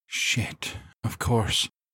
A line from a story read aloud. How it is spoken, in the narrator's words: she muttered